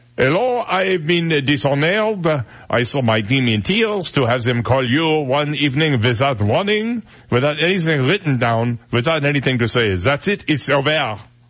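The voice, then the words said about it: Put-on French accent. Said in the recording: “I could do the French accent ... Now I'm going to do it in my voice.”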